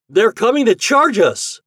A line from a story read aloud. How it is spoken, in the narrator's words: Herbie suddenly cried